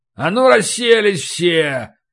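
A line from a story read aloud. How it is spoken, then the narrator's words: Growl. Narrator (Russian): прорычал старший жандармский унтер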